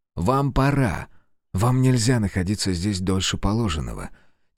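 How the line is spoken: Quiet male whisper. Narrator (Russian): Тихо прошептал мужчина

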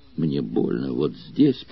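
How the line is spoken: Weak moaning voice. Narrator (Russian): простонал он слабеющим голосом

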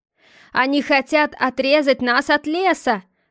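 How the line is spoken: Shout. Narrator (Russian): крикнул Эльфер

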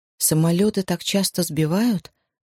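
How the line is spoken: Trembling question. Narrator (Russian): дрогнувшим голосом спросила Джози

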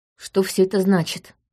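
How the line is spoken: Quiet question. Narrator (Russian): негромко спросил Лаурень

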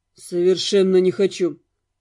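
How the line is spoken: Icy cold reply. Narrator (Russian): откликнулся Дамиан по-прежнему ледяным тоном

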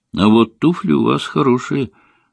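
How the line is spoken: Sighing. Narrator (Russian): вздохнула я

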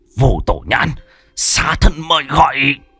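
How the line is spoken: Hissing. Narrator (Vietnamese): Hắn rít lên

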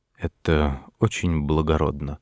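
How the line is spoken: Quiet, submissive, grateful knight. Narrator (Russian): сказал рыцарь тихим покорным голосом, как будто ему была оказана неожиданная милость

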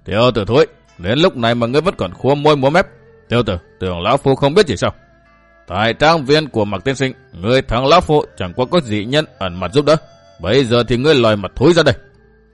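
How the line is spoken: Laughing loudly. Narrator (Vietnamese): bật cười lớn hơn, y vừa cười vừa chỉ

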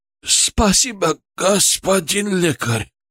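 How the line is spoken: Hoarse rasp. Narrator (Russian): прохрипел он

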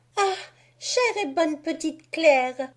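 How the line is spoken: Tender exclamation. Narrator (French): s'écria Marie avec attendrissement

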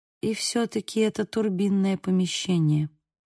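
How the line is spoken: Quiet. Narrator (Russian): произнесла я тихо

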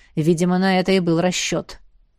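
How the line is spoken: Said quietly. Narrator (Russian): проговорил тихо

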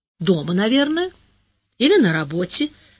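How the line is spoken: Completely calm. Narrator (Russian): совершенно спокойно ответила директриса

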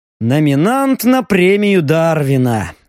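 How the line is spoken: Sighing. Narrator (Russian): вздохнул Леха

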